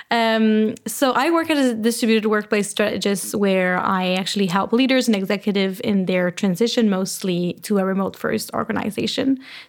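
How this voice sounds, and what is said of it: Slight French-Canadian accent. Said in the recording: “I am French-Canadian, so I have a little French accent when I speak English”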